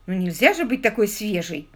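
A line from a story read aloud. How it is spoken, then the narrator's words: Offended exclamation. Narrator (Russian): обиженно восклицая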